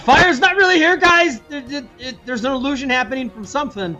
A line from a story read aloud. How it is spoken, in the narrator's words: I would shout